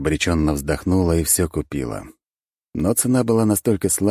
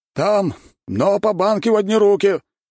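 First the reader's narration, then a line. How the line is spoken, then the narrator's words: Shouting after someone. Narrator (Russian): выкрикнул он вдогонку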